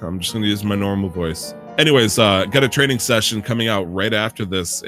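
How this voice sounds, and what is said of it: Usual voice. Nothing is said of it.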